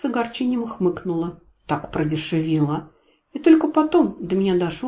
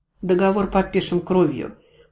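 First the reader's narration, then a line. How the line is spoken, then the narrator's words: Resigned matter-of-fact tone. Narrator (Russian): осознав, что рыпаться поздно, будничным тоном произнесла я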